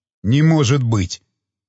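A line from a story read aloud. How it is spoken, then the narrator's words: Forced out, teeth chattering. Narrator (Russian): наконец выдавил Джосс, стуча зубами от холода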